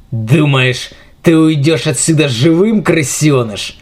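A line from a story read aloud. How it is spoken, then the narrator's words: Hateful growl. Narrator (Russian): С ненавистью в каждом слове прорычал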